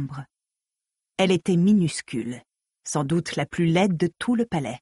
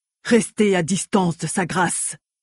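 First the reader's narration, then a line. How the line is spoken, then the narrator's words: Growl. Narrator (French): gronda Zhu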